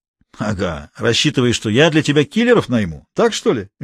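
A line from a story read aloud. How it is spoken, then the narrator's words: Cheerful. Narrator (Russian): весело сказал Анатолий Борисович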